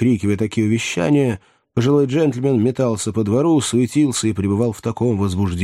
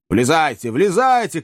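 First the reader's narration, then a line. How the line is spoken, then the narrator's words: Old man shouting. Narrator (Russian): кричал старик Ордль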